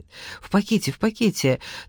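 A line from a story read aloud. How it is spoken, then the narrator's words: Hurried, breathless woman. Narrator (Russian): торопливо проговорила полная одышливая женщина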